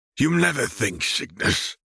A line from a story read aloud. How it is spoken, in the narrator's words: he hissed